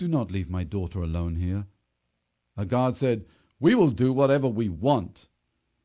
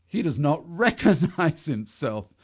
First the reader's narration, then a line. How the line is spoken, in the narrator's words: they laughed